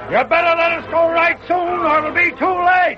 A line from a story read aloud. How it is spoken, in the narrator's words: Brogan shouted from the jail